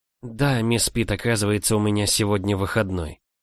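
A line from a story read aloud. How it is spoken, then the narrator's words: Quiet speech. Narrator (Russian): тихо проговорила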